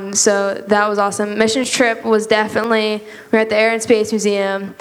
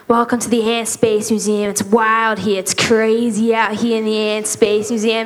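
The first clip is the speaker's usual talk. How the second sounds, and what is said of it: Put-on Australian accent. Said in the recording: “I did an Australian accent.”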